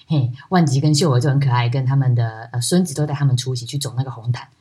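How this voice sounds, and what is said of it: Tainan-accented Taiwanese Mandarin. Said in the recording (Chinese): “台南的口音听着听着很亲切”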